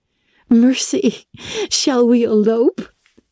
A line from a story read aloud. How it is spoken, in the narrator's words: she laughed